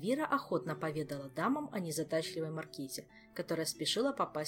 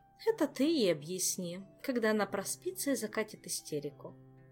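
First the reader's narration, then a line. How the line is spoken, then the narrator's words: Sighing. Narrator (Russian): вздохнула Камилла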